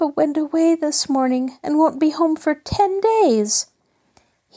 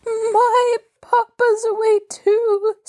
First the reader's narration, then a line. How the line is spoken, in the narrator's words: sobbed Mabel